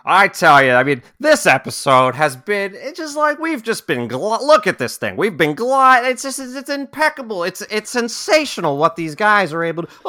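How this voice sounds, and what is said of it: Imitates another person's voice. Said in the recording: “the Chris Collinsworth impersonation”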